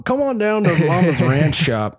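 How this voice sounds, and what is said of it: Put-on Southern American accent. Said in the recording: “I don't know why they've developed a southern accent.”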